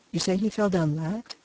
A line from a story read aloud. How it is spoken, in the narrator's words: he asked